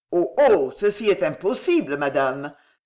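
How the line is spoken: Startled exclamation. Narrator (French): s'écria Bussy Leclerc en sursautant

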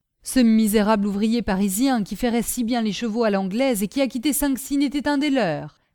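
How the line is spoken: Exclaiming. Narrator (French): s'écria Michu

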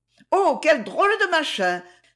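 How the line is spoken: Exclaimed. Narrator (French): s'écria Trinette

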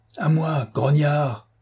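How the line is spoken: Shouted. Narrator (French): cria-t-il

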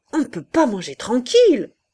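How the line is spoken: Sudden shout. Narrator (French): cria brusquement le général

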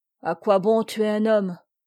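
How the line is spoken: Sad huntsman. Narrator (French): dit tristement le veneur

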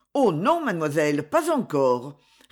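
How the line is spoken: Quick, anxious reply. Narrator (French): répondit le père vivement, comme s'il eût craint quelque naïveté de la petite

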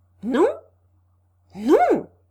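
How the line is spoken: Joyful exclamation. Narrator (French): s'écria Rogojin, transporté de joie

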